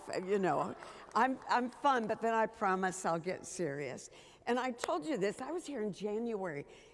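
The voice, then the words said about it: Low, sick-sounding voice. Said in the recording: “forgive my voice. I've had a bit of a bug while I'm here. ... you're supposed to think my voice is sexy because it's low.”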